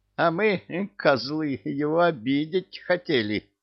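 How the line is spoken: Frightened sobbing. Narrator (Russian): Всхлипнул щуплый черт с испуганным выражением лица

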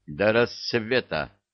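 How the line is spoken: Stern. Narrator (Russian): строго сказал Илья

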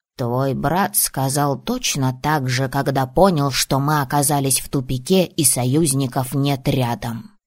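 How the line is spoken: Grumble. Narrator (Russian): пробурчал Коша

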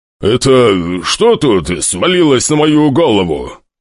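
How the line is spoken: Growl. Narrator (Russian): прорычал он

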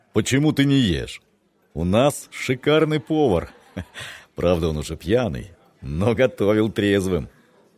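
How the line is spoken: Laughing. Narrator (Russian): засмеялся капитан

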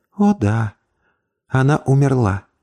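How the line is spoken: Sad. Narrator (Russian): печально произнесла

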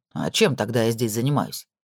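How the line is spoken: Grumbling, mouth full. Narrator (Russian): пробурчал Итан с полным ртом лазаньи

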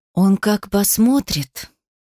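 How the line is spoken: Growling husband's whisper. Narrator (Russian): Зарычав, муж шепнул так, чтобы Сонька не услышала

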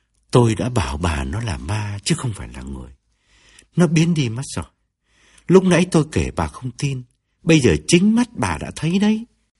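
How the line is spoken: Lowered voice, explaining. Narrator (Vietnamese): Ông hạ giọng cắt nghĩa cho vợ

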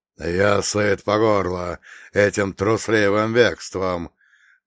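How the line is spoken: Growling. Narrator (Russian): прорычал он

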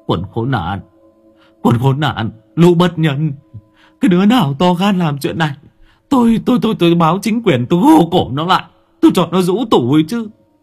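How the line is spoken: Whimpering, near tears. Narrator (Vietnamese): Ông Giang mếu máo

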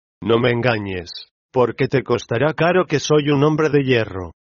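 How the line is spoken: Hoarse, distrustful voice. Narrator (Spanish): El enfermo experimentó una violenta sacudida, y me dijo con voz bronca y desconfiada

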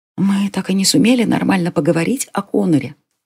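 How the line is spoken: Whisper. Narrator (Russian): прошептала она

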